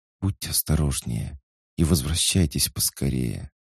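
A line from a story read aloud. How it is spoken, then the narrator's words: Soft whisper. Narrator (Russian): Даша тихо прошептала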